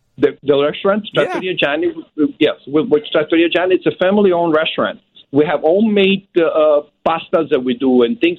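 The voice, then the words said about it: Sicilian Italian accent. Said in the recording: “your accent doesn't sound Alabama ... you're Southern Italy ... from Sicily”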